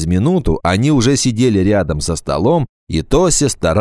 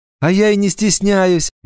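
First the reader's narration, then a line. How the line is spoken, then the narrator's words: Cheerful. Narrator (Russian): весело сказала Тося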